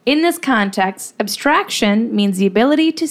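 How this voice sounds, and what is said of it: Usual voice. Nothing is said of it.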